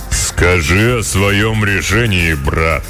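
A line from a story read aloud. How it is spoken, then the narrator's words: Booming, stout man. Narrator (Russian): прогудел тучный и низкорослый кудесник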